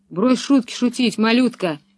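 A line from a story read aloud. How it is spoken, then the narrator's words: Angry thug. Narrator (Russian): зло проговорил громила Карл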